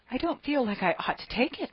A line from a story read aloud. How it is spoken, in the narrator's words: murmured Anne